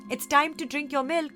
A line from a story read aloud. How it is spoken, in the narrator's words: called out